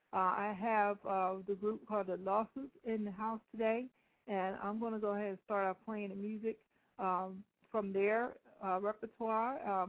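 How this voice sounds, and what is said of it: Rough voice from a cold. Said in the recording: “I have a slight cold, so my voice might sound a little raunchy today.”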